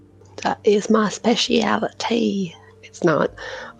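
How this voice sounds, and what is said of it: Put-on southern accent. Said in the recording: “I like that southern accent you went into.”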